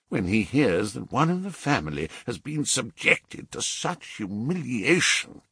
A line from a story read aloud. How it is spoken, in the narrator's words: murmured